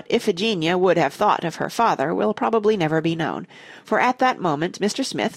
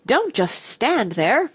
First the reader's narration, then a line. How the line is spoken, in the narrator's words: cried the lady